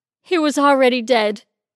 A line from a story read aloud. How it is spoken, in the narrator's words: Denise said, between overly dramatic chest-heaving sobs